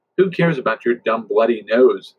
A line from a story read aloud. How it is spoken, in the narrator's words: Abigail snapped